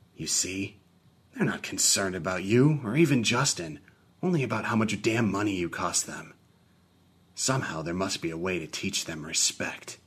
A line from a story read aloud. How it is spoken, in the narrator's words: I whispered to Franklin with my mind